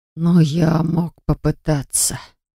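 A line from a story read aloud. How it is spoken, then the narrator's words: Barely audible. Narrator (Russian): произнес едва слышно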